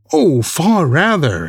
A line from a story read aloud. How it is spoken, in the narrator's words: exclaimed Perseus, with the tears again standing in his eyes